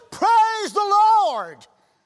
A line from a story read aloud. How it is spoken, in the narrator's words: Not knowing what to do, he also shouted